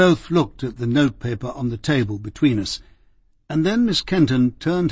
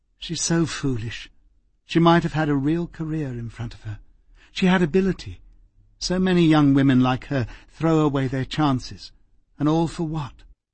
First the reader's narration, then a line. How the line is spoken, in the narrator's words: she sighed tiredly and said